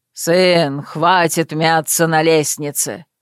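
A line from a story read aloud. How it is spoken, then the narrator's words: Sudden bark. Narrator (Russian): неожиданно рявкнул Май Элэ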